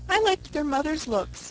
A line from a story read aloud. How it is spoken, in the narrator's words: said Una with a little sigh